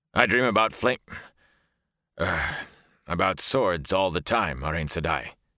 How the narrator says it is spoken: he said stiffly

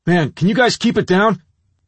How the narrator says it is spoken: I yelled

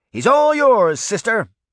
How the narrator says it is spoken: she shouted to her companion

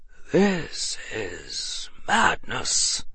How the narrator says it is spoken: The old wizard passed a hand across his forehead and muttered

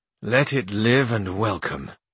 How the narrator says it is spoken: said Master Pedro at this in a feeble voice

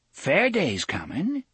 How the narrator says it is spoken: Coral said brightly

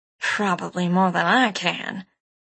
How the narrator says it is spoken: this last part she muttered

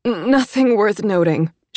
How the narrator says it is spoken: she managed

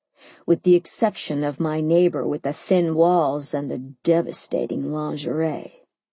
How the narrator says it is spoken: he said in a low voice that could melt, well, anything

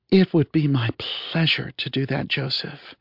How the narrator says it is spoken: purred the AI system

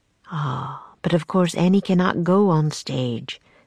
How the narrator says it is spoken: the man said kindly

